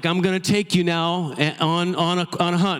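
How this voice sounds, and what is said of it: Attempted Southern US accent. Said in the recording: “I don't do Southern accent very well. But there's this Alabama guide”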